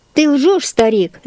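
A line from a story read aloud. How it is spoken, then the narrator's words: Horseman shouting. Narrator (Russian): закричал на Елиазара всадник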